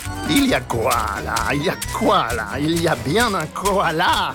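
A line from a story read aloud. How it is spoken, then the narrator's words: Sneering laugh. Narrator (French): ricanait-il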